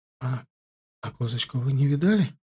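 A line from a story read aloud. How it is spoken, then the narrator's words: Quiet question. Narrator (Russian): тихо спросила Амина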